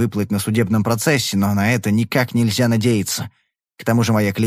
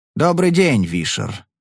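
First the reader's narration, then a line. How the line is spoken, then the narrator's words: Indifferent tone. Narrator (Russian): сказал он равнодушным тоном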